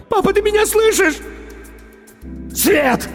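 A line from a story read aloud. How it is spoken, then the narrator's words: Sudden shout, man. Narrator (Russian): закричал вдруг мужчина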